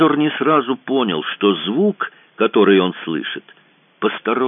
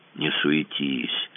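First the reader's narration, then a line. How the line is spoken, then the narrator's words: Hoarse rasp. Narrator (Russian): прохрипел Кацуба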